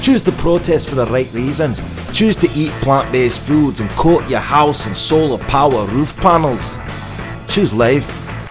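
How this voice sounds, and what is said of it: Put-on Scottish accent. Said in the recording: “my Scottish accent. I know it's very harsh on the ears”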